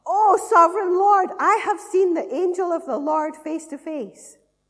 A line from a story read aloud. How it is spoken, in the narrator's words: When Gideon realized that it was the angel of the Lord, he exclaimed